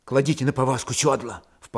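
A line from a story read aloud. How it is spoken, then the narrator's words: Low undertone. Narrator (Russian): вполголоса сказал он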